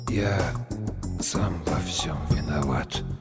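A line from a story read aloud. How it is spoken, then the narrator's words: Barely audible. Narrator (Russian): сказал едва слышно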